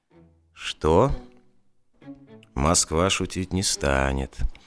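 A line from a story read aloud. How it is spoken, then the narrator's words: Gloomy. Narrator (Russian): мрачно сказал Таманцев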